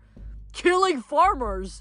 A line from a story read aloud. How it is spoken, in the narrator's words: Ares screamed back